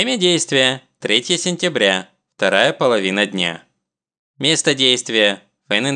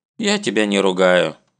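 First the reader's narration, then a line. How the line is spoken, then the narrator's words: Mother, sighing. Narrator (Russian): вздохнув, отвечает мама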